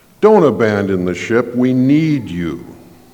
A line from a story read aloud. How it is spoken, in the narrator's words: pleads